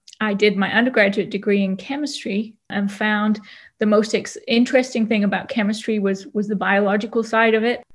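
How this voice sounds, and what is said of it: British English accent. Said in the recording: “As you can probably hear, I have an accent a little bit. And so I'm British.”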